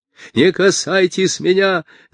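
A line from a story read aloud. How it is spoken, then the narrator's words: Shout. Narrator (Russian): закричал Абирам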